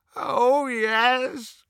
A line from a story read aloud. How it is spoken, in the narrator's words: moaned Creature